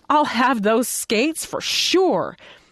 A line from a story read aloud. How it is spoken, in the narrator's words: exclaimed decidedly